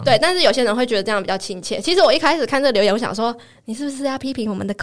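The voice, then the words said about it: Taiwanese accent, not crisp Mainland Mandarin. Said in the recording (Chinese): “亲切的口音 ... 讲话可能会短急、大舌头 ... 像我讲话比较没有那么字正腔圆 ... 比较没有大陆腔”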